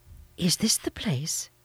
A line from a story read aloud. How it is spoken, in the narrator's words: Sarah whispered